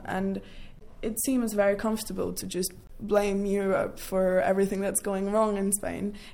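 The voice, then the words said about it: British accent. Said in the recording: “anyone listening to you might mistake you for a Brit. That accent is definitely British.”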